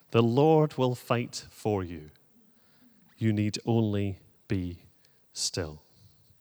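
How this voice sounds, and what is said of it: Celtic accent. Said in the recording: “enjoy half an hour of a Celtic accent”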